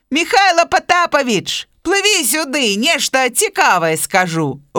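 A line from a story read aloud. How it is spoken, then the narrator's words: Calling out. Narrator (Belarusian): гукнуў яму заяц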